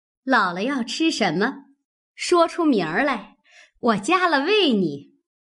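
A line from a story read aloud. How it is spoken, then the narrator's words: Laughing. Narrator (Chinese): 凤姐儿笑道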